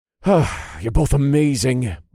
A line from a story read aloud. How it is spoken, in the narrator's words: I sighed